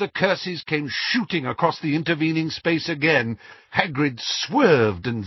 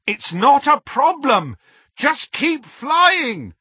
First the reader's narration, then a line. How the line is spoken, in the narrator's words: Harry shouted back